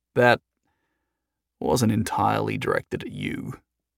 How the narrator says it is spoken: Jason said softly

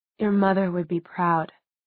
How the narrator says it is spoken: he said so quietly that even Clary, standing beside him, had to strain to hear it

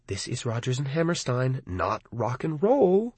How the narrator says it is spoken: I muttered to Arnie and Lee

